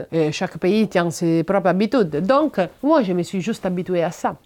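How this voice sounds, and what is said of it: Non-native accent in French. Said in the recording (French): “Il y a des personnes qui trouvent mon accent mignon ... Il y a des personnes qui trouvent ça totalement incompréhensible.”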